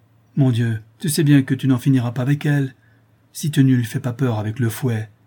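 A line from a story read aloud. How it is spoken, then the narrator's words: Exclaiming. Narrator (French): s'écria Madeleine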